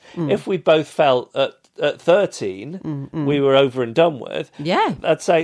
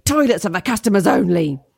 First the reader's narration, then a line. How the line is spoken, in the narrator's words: a man who was sat at the bar aggressively shouted at me